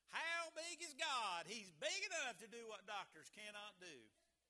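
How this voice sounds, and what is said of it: Exaggerated put-on Western accent. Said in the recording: “I probably could turn on the accent really big since it's Western time... I got to work on that a little bit”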